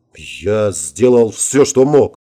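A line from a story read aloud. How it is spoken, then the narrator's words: Gloomy grumble. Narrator (Russian): мрачно буркнул я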